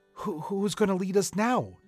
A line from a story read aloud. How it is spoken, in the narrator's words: Terence asked nervously